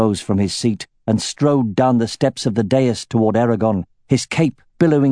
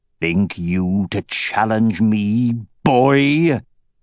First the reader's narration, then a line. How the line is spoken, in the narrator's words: he growled, fairly spitting with rage